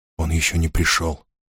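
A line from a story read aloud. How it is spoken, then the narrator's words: Whispered. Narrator (Russian): прошептал он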